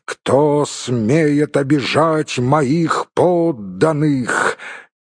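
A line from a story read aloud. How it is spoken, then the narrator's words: Thunderous exclamation. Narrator (Russian): он воскликнул громовым голосом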